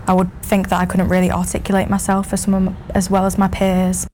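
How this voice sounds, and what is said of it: Northern English Mancunian accent. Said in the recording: “Growing up in Manchester ... her accent ... I was Northern and that I didn't speak the Queen's English”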